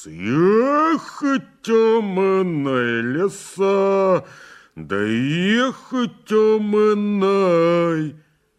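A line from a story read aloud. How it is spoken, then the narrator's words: Angry humming under breath. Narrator (Russian): сердито мурлыкать под нос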